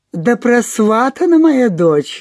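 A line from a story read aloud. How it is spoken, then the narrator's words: Laughing. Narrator (Russian): засмеялась Вячеслава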